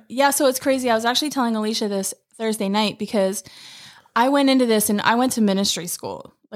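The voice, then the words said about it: Slight Pennsylvania accent. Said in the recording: “you still have that little Pennsylvania accent.”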